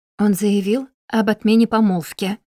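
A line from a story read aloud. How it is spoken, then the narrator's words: Plain. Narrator (Russian): сказала матушка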